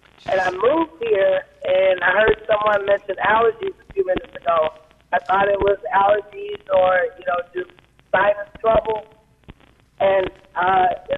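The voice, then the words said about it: Hoarse voice. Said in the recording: “I don't know if you can hear it in my voice now, but this hoarseness has persisted for about 3 years ... it was hoarse”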